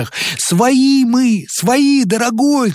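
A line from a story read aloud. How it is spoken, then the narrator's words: Shouting. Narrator (Russian): кричал первый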